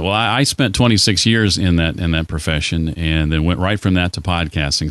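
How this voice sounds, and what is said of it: Polished radio announcer voice. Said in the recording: “you have like the best radio voice ever”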